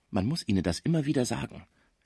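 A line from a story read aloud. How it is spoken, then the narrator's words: Quiet explaining. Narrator (German): erklärte er Schmucke leise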